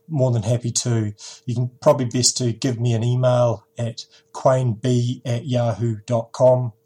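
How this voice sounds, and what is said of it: New Zealand accent. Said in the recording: “my little accent for you ... in a Kiwi accent ... then you've got the New Zealand accent down pat”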